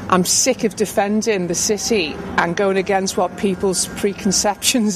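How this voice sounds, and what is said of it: Scouse (Liverpool) accent. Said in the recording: “a normal Scouse voice ... just a normal woman who's clearly got a Scouse accent”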